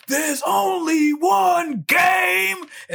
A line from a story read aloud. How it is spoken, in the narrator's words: they all yell back